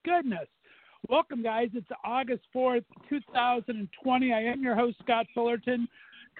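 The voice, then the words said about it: Hoarse, strained voice. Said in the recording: “I am losing my voice ... losing my voice on a Tuesday ... My voice is gone.”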